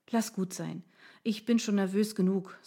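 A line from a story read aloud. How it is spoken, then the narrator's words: Sighed. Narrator (German): seufzte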